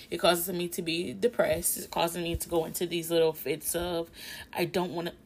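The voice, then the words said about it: Emotional, shaky voice. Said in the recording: “I know y'all can hear it in my voice. I'm a little emotional”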